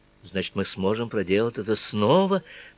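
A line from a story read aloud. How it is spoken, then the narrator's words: Muttered. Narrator (Russian): пробормотала Цицы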